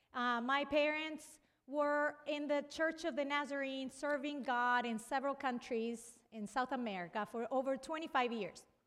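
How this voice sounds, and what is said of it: Brazilian accent. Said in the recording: “As you can tell, I have an accent. So I'm originally from Brazil. I grew up in Argentina”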